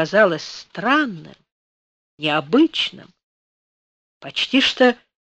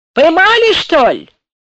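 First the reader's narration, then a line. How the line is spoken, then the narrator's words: Young soldier shouting afar. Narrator (Russian): потный, краснорожий молодой солдат крикнул куда-то вдаль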